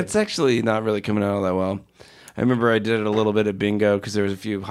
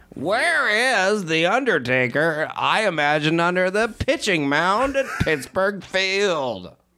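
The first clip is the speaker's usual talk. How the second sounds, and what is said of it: Imitates a hockey broadcaster's voice. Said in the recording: “This is Doc Emrick. ... You are selling me more and more Doc Emrick impersonation. ... You're doing pretty good.”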